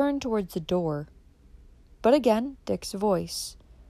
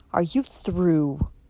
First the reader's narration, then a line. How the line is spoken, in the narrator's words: he said with a sneer